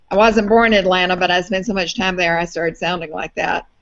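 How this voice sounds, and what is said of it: Distinctive Southern US accent. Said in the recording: “I have a distinctive southern accent that's from Atlanta”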